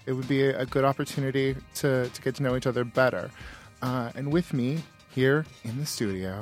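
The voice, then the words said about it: Solemn, hushed public-radio host voice. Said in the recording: “I'm so solemn right now ... I think this is a sensitivity voice ... I was practicing NPR voice.”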